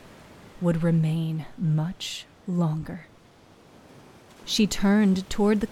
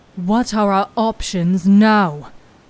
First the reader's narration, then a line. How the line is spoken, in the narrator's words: Abban snapped